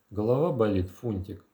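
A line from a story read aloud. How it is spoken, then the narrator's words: Tender question. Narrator (Russian): нежно спросила она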